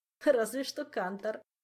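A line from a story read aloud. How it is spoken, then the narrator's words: Giggling. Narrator (Russian): хихикнул Жак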